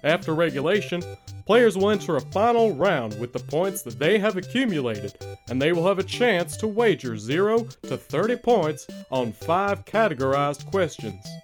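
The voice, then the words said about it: Hank Hill impression. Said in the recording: “that wonderful Hank Hill impression”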